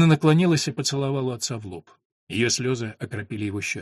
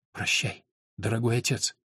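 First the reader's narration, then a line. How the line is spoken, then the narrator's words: Whisper. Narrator (Russian): прошептала она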